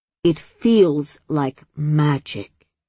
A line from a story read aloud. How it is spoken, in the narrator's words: her grandmother had said very slowly